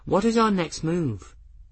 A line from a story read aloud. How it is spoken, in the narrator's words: Bridget asked hesitantly